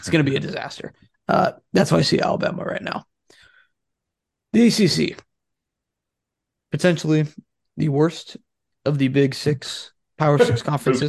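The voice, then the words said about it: Strained, rough-sounding voice. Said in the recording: “my voice is terrible today”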